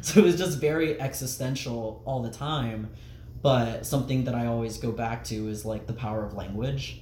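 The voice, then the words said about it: Southern accent with hard vowels. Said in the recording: “my southern, like, hard vowel accent”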